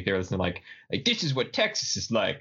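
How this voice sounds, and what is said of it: Bad put-on Texan accent. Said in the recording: “that's a terrible Texan accent. ... That was awful. ... I can't do it.”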